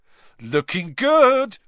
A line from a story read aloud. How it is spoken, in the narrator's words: Ron yelled